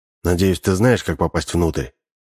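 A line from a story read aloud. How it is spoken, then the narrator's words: Low voice. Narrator (Russian): Матвей говорил вполголоса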